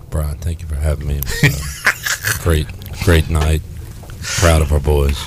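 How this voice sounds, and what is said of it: Deep, slow Larry Williford impression. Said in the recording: “he wants to do an impression of Larry Williford ... Coach, you got that deep voice going ... you give it a real slow approach”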